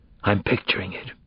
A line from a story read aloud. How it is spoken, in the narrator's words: whispered